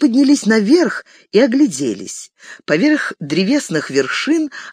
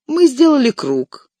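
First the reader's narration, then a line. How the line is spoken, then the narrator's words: Calm. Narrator (Russian): спокойно проговорил Леголас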